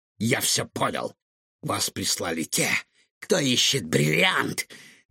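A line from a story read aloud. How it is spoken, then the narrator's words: Furious hiss. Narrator (Russian): яростно прошипел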